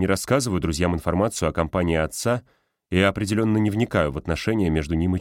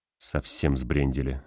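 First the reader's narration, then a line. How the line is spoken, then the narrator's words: Muttered. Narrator (Russian): бормочу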